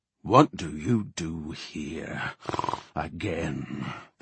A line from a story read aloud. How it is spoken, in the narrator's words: The Worgen growled